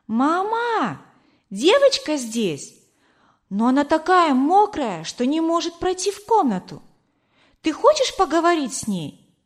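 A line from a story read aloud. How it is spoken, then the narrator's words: Child shouting. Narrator (Russian): девочка крикнула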